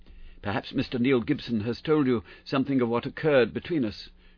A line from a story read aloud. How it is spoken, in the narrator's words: she asked in a low, agitated voice